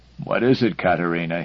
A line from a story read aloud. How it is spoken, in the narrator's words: said sleepily